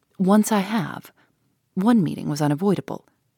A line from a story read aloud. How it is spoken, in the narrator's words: he replied gravely